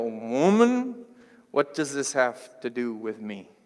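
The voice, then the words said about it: Slow little country voice. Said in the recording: “I switched my voice there. I sounded like my stepdad. He's got like a little country voice ... he's a little slower with the talking”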